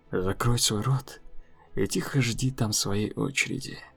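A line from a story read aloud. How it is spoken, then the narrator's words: Said quietly. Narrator (Russian): Джнубу тихо сказал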